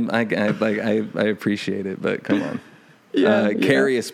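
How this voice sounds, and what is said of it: Usual voice. Nothing is said of it.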